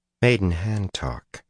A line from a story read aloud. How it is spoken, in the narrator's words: she murmured, too softly for any ear but his to hear